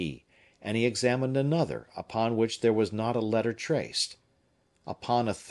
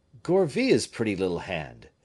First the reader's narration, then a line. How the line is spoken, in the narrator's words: cried he